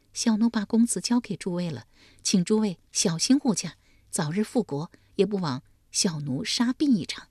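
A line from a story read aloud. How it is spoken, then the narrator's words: Tearful, choked voice. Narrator (Chinese): 齐江泪却先流，哽咽着说道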